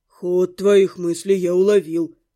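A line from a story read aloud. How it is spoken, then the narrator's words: Gruff mutter. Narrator (Russian): буркнул Зяба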